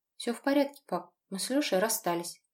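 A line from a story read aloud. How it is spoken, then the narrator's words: Quiet. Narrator (Russian): тихо сказала я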